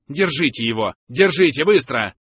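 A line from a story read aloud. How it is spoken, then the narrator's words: Angry bark. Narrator (Russian): рявкнул Дондекс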